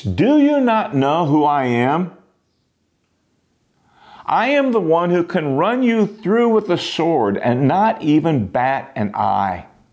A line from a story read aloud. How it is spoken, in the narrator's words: he hollered